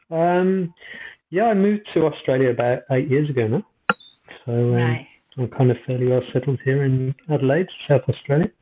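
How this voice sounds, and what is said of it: Slight Australian accent, rising intonation. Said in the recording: “You've got the accent, considering you're from Moseley. ... My sentences go up at the end instead of down. ... Not a Brummie anymore. ... You're going up, up, up and away.”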